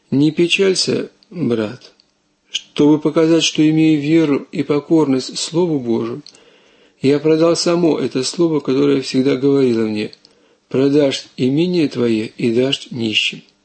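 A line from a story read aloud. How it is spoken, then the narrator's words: Calm old man. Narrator (Russian): Старец спокойно и умно отвечал ему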